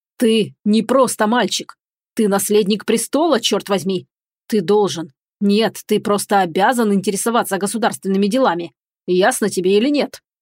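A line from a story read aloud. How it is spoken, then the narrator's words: Growl. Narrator (Russian): прорычал великий князь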